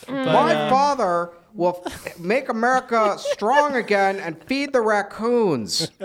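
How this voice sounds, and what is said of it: Imitates another person's voice. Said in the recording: “my Eric Trump impression.”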